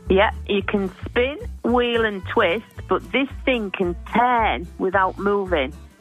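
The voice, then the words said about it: Speaking in an accent. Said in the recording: “Can you do it without the accent?”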